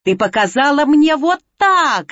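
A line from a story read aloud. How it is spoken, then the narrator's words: Furious yelling. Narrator (Russian): заорала она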